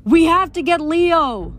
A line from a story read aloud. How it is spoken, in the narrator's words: shouted